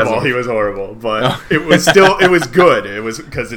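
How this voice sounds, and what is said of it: Usual voice. Nothing is said of it.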